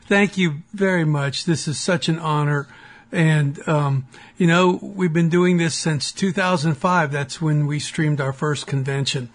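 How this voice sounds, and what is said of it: Strained, worn-out voice. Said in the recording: “I'm sorry my voice sounds the way it does. I've been shouting at a parliamentarian all afternoon.”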